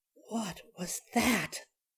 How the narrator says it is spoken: Jerry whispered

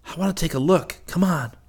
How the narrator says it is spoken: Rick whispered

